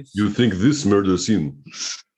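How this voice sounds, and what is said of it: Bad fake Russian accent. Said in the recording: “your Russian accent was the worst one we heard tonight ... I think that's bad accent ... It's awful.”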